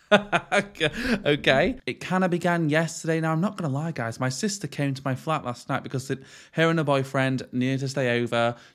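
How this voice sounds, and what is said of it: Rough, ill-sounding voice. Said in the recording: “if I sound rougher than usual, it's actually because I'm slightly ill”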